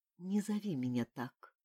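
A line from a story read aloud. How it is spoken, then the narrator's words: Quiet request. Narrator (Russian): тихо попросила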